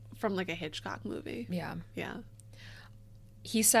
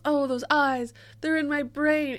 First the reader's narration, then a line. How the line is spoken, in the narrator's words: When he yells